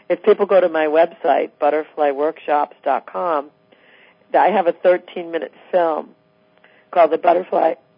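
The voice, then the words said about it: Hoarse, failing voice. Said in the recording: “Sorry, I'm losing my voice.”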